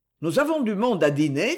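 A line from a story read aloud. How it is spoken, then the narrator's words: Cold servant's voice. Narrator (French): fit le valet froidement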